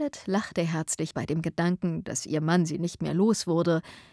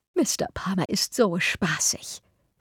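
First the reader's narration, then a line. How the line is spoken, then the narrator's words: Whispered. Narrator (German): flüsterte sie Eleanor zu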